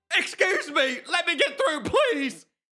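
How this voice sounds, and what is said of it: Big dumb voice. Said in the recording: “a big dumb voice”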